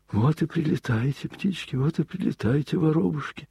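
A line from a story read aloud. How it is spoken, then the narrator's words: Worried muttering. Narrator (Russian): бормотал он озабоченно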